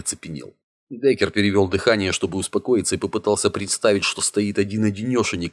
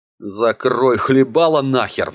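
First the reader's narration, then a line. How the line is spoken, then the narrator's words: Furious roar. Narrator (Russian): взревел Деккер, исчерпавший последние терпения с этими типами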